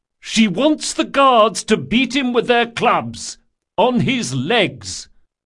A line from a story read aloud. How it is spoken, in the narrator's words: He cleared his throat and shouted